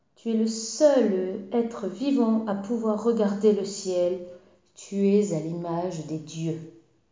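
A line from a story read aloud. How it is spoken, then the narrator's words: Vibrant voice. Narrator (French): dit-il d'une voix vibrante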